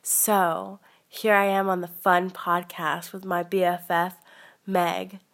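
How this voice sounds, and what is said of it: Put-on radio voice, crisp S's and P's. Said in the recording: “This is my radio voice. This is my podcast voice. ... I really want to make sure to accentuate my S's and my P's. It's very ASMR.”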